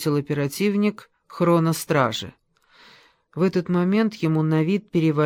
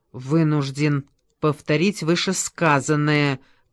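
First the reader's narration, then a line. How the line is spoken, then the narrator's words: Growled. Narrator (Russian): прорычал Скользум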